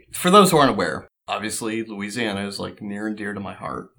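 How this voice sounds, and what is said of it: Slight Southern accent slipping out. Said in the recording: “my southern accent's even starting to slip out a little bit”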